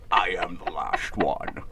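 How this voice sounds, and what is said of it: Sean Connery impression. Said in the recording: “Sean Connery from Dragonheart, because I've been working on my impersonation of him ... That was award-winning. ... I thought Sean Connery was here for a second.”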